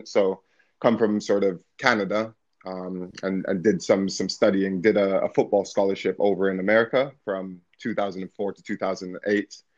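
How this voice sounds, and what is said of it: Noticeably different foreign accent. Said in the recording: “as you can hear, my accent's a bit different”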